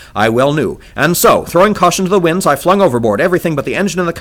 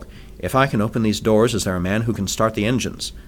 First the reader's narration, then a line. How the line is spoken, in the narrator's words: I asked